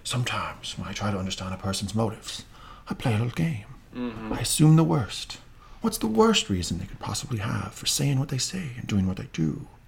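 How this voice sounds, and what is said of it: Good imitation of Littlefinger's voice. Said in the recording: “your Littlefinger accent, by the way. It's pretty damn good.”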